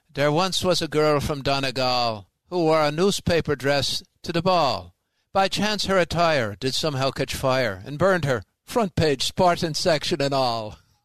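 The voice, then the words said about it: Put-on Irish accent. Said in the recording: “one of my favorite Irish ones... the accent that makes it funny.”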